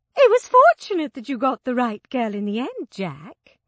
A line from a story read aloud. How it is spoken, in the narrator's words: Sylvia said cheerfully